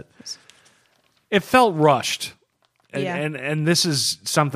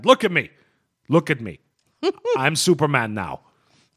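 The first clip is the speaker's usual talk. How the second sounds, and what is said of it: Poorly done movie-character accent imitation. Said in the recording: “That's a terrible... Terrible Captain Phillips accent.”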